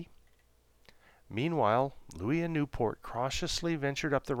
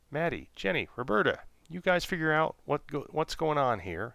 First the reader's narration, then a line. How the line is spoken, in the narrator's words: said Newport